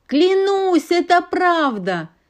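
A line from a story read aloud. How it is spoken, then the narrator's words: Shouting after them. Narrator (Russian): кричал им вслед Молния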